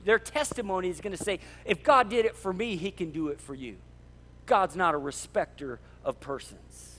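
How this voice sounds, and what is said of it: Yelling, fired-up passionate preaching. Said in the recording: “I'm yelling today. I'm yelling, I'm fired up, I'm passionate. I even wrote in my notes not to yell, and I'm yelling”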